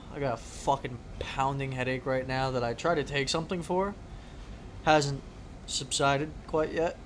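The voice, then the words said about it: Tired, strained voice, losing it. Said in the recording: “Tired. Feel like I'm losing my voice.”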